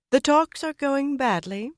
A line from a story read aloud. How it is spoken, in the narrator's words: she said in that high, musical voice